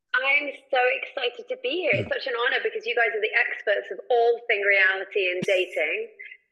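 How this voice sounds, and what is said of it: English accent. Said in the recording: “by your accent ... I'm from England originally”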